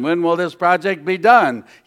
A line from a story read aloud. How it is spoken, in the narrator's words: he said famously